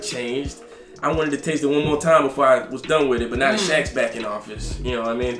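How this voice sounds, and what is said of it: Southern US accent. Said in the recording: “I'm from Alabama, the deep south... Oh, you heard the accent, huh?”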